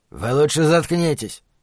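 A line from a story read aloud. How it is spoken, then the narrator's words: Guard's growl. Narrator (Russian): прорычал кто-то из конвоиров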